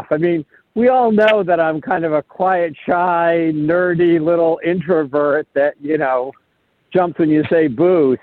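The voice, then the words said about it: Sarcastic tone. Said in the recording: “I sense a little sarcasm there”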